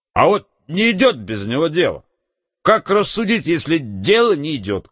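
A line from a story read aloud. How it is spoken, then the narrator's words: Loud hiccup, bewildered. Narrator (Russian): Громко икнув, в недоумении Василий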